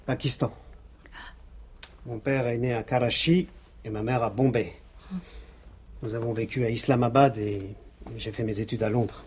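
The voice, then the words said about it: Slight foreign accent. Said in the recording (French): “Vous avez un petit accent”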